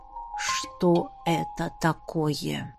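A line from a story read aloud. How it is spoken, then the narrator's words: Quiet, nearly flat. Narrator (Russian): Тихо, почти безэмоционально повторил вопрос креативный директор рекламного агентства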